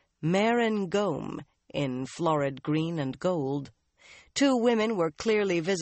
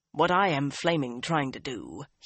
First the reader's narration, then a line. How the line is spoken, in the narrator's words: he growled